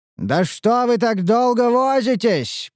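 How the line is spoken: Shout. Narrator (Russian): прокричал Теврин

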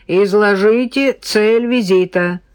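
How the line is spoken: Booming metallic speaker voice. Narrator (Russian): прогремел из динамика металлический голос

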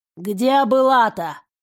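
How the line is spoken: Creaky old voice. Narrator (Russian): проскрипела старуха

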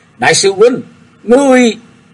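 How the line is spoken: Loud shout. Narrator (Vietnamese): Tần Thiên Phong quát lớn nói

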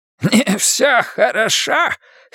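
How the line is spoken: Hoarse croak, old man. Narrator (Russian): хрипло каркнул старик

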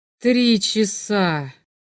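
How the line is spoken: Moaned. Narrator (Russian): простонал Грэхам

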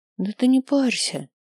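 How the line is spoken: Quiet repetition. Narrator (Russian): тихо повторила она

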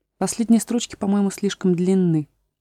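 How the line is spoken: Muttered. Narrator (Russian): пробормотала она

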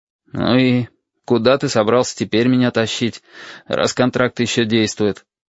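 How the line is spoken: Gloomy question. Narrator (Russian): мрачно поинтересовался я

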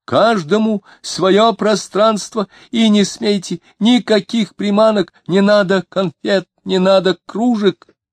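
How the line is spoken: Shouting. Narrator (Russian): Диомидов тоже кричал

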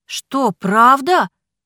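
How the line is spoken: Exclaiming together. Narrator (Russian): воскликнули мы с Ричардом

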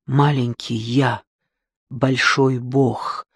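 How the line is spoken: Repeated whisper. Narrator (Russian): шептал снова и снова

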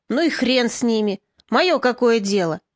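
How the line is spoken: Snort. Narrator (Russian): Морозко фыркнул

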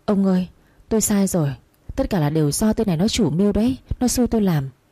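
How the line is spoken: Trembling pleading. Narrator (Vietnamese): Bà hai lúc này cả người run lên, van xin

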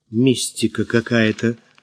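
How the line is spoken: Helpless mutter. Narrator (Russian): пробормотала, беспомощно

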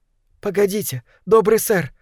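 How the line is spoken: Exclamation. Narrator (Russian): воскликнула Мэри

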